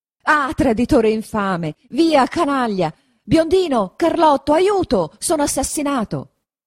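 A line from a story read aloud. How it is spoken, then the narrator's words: Shouted. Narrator (Italian): grida Don Rodrigo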